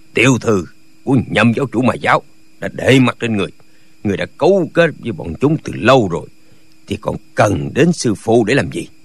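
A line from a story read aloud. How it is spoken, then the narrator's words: Cold speech. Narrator (Vietnamese): Nhạc Bất Quần lạnh lùng nói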